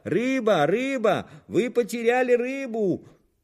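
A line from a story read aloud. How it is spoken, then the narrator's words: Shout. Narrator (Russian): закричал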